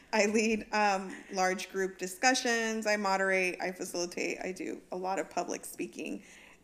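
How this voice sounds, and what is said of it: Slightly raspy voice. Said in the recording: “my voice is a little raspy ... Oh, I hear it.”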